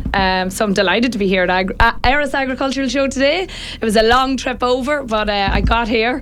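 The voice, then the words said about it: Northern Irish twang. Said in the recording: “I can hear the accent. ... northern twang ... from just County Louth ... the very north point of County Louth”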